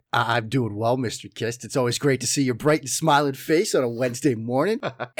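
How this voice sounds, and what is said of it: Strong Boston accent. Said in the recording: “my ever-present and always flagrant Boston accent”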